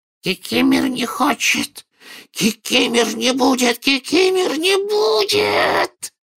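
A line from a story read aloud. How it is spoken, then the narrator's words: Loud hoarse wheeze. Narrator (Russian): прохрипел домовик так же громко, как и дядя Вернон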